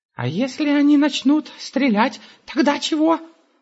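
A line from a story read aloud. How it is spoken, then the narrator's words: Giant's cry. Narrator (Russian): вскрикнул великан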